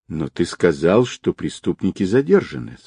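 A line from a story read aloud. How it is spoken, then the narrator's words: Calm. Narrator (Russian): спокойно сказала Нелли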